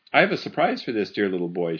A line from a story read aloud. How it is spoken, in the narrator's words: she said